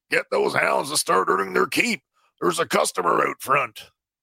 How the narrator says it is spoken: Zorby barks

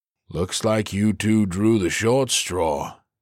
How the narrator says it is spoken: he drawled

